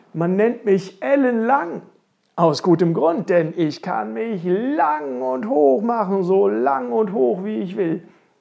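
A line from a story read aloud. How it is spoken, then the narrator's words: Thin tall fellow calling. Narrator (German): rief der dünne, lange Kerl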